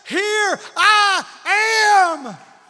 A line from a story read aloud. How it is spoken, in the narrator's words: God is screaming from the heavens